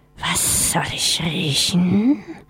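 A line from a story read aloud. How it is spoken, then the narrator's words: Hissing question. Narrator (German): fragte die zischelnde Stimme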